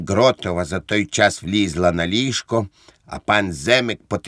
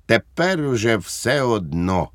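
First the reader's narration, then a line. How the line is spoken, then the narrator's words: Plain. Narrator (Ukrainian): сказала пані Гротова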